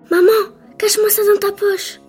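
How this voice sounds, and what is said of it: Whispering. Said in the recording (French): “La petite fille dit en chuchotant.”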